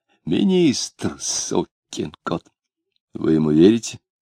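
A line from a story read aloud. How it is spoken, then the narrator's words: Heated whisper. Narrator (Russian): горячим шептом спросил сосед Клима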